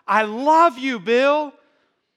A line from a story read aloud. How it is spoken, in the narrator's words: some lady in the back just screamed out